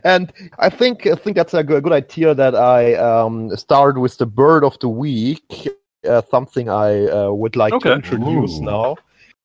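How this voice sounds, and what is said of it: Non-native accent, mispronounced words. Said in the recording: “I adore your accent. You just say words that are just perfect... You don't pronounce them right at all, but it's adorable”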